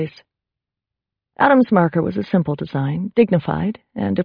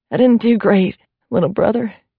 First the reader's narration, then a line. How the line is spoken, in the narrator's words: Carrie said, her voice cracking with emotion